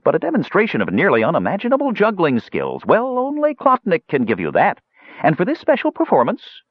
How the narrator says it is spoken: quickly added in a kindly voice

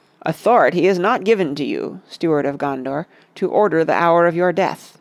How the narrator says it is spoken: answered Gandalf

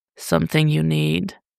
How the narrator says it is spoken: Bruce practically purred

